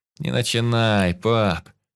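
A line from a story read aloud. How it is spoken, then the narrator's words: Groaning. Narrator (Russian): застонал я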